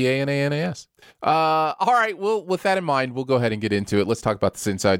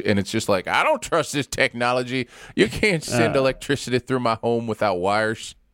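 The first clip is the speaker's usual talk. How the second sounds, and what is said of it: Imitates another person's voice. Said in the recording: “That's his imitation of me”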